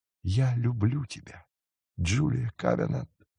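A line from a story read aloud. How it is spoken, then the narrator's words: Whisper in ear. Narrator (Russian): шепнул ей на ухо Рик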